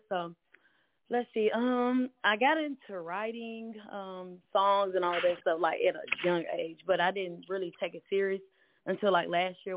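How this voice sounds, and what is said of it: Southern country accent. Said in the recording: “sound country”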